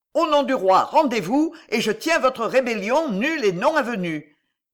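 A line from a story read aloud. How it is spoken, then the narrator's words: Shout with uncontrolled emotion. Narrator (French): cria le capitaine avec une émotion dont il ne fut pas maître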